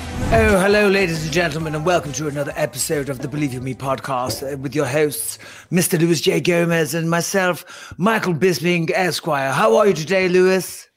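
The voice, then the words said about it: Posh hoity-toity British voice. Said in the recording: “you do an impression of a British person ... That was a hoity-toity. You know, a posh person.”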